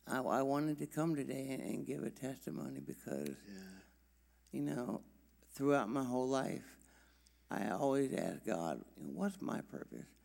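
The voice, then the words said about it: Weak, short-of-breath voice. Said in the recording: “my voice is a little, because breathing is still struggling a little bit”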